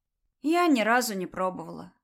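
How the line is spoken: Said with a sigh. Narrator (Russian): вздохнув, сказала Дуня

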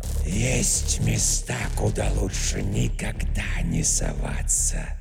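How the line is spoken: Dual-mouthed unison whisper. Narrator (Russian): прошептала темная тварь в унисон обоими ртами

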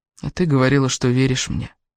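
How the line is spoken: Sad. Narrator (Russian): печально произнес Кевин

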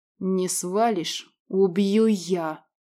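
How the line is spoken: Hissed through teeth. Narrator (Russian): прошипел сквозь зубы Радмир

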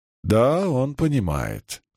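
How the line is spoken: Calm priest. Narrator (Russian): спокойно ответил жрец

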